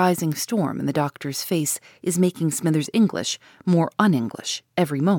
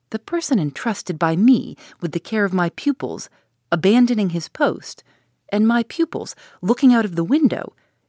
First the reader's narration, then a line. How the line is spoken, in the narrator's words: exclaimed Dr